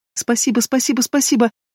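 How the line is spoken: Rapid, very quiet chatter. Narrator (Russian): Затараторила она тихо-тихо

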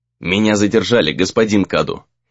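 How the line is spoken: Dry reply. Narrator (Russian): сухо отозвался тот

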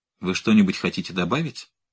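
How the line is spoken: Cold inquiry. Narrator (Russian): холодно осведомилась

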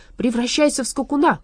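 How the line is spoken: Shout. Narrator (Russian): крикнул он

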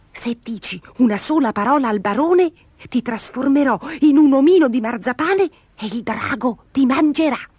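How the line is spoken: Whispered in ear. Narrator (Italian): Gobolino le bisbigliò all'orecchio

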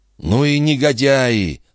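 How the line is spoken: Through gritted teeth. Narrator (Russian): сквозь зубы процедил дон Иниго

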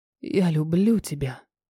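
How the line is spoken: Whisper. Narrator (Russian): шепнул

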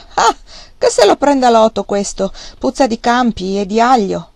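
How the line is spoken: Girl's ringing exclamation. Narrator (Italian): una ragazza, rossa come una melagrana, esclamò con voce sonora

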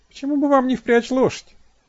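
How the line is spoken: Giggling question. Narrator (Russian): спросила, хихикая

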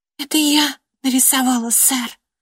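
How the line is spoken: Female whisper. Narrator (Russian): прошептала она

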